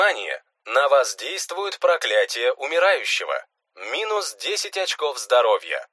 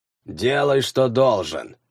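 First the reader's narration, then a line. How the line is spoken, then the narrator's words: Dull, muffled. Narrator (Russian): глухо сказал он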